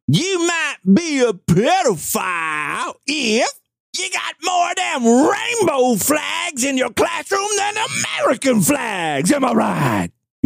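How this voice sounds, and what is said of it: Thick put-on Southern accent. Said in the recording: “you got to do it with like a thicker southern accent”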